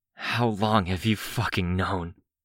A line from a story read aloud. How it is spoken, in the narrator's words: Foyle asked, her voice raw